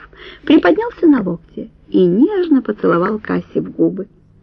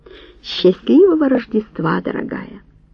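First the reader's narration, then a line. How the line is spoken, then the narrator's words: Quiet man's wish. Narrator (Russian): тихо пожелал он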